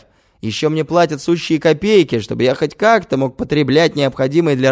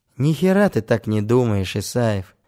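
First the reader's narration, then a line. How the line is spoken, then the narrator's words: Sighing. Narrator (Russian): вздохнул он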